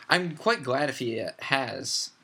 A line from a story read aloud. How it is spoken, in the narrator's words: said Luna